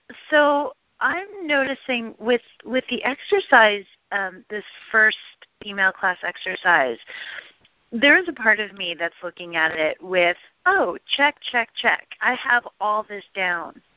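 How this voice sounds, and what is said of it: Slight British accent. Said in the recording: “a bit of a British accent”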